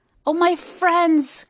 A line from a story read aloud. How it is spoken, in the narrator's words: cried the elephant